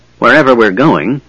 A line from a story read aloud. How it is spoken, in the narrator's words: muttered Flint irritably